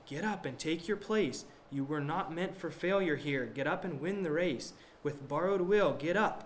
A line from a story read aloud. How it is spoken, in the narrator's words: said